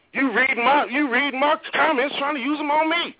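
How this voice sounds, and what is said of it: Angry yelling voice. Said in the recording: “that's why I'm yelling.”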